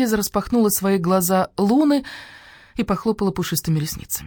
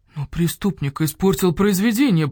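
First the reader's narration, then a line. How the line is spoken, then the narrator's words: Moan. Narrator (Russian): простонал крот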